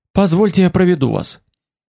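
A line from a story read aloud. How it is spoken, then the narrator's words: Hurried. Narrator (Russian): Он сказал торопливо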